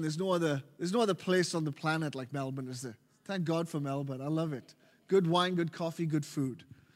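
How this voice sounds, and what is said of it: Welsh accent. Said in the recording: “As you can tell from my accent, ... I'm from Wales.”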